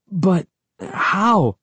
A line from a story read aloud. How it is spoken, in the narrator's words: I stammered